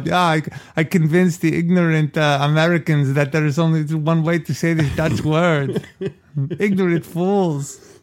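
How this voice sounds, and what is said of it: Put-on Dutch or German accent. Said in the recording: “I love your Dutch accent. ... I don't even know what it was. I don't know if it was Dutch or German. ... Like a character from something.”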